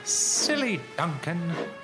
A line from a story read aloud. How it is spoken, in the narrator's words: scoffed Peter Sam